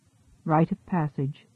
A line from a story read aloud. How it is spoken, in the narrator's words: she murmured